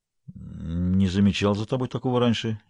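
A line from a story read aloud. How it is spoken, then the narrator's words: Uncertain, recalling. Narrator (Russian): неуверенно попытался припомнить я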